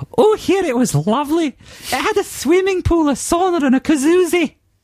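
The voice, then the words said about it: Higher-pitched, slightly camp Glaswegian accent. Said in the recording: “Please adopt a slightly higher-pitched, almost but not quite camp Glaswegian accent.”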